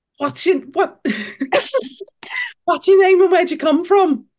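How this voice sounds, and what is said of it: Birmingham-accented impression of a singer. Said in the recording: “her Cilla Black impression ... it's not really Cilla Black. It's more like someone from Birmingham ... No, that's Birmingham.”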